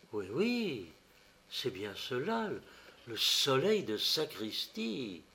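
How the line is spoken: Breathless whisper. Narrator (French): il dit dans un souffle

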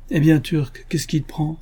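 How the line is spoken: Exclamation. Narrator (French): s'écria Elisa

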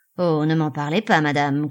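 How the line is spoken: Growled. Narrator (French): gronda Henchard

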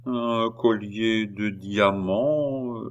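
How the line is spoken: Slow speech. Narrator (French): dit lentement Boehmer

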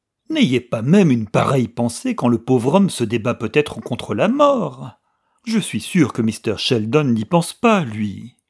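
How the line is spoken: Reproachful exclamation, old woman. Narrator (French): s'écria d'un ton de reproche la vieille femme

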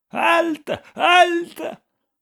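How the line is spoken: Piercing breathless shout. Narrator (French): criait-il d'une voix perçante et haletante

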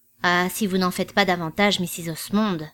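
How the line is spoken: Growled. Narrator (French): gronda Rosier

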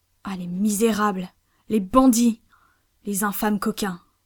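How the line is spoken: Exclaimed. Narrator (French): s'écria Pencroff

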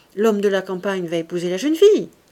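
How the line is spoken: Surprised, somewhat annoyed. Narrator (French): dit Saccard d'un ton surpris et comme fâché

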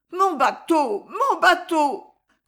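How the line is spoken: Crying for help. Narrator (French): comme on crie au secours

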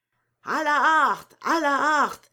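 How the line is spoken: Crowd shouting. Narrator (French): cria le grand ensemble

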